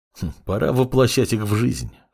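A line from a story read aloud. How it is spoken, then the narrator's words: Snorting. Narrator (Russian): хмыкнул Синзи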